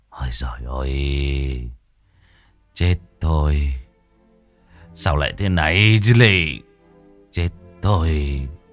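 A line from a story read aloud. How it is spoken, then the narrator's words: Sighing mutter. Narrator (Vietnamese): Ông thở dài, miệng cứ lẩm bẩm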